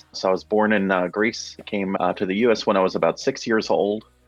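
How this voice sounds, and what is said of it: Neutral accent. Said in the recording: “my accent or my neutral accent”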